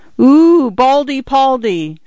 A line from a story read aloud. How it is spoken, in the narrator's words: some idiot girl had exclaimed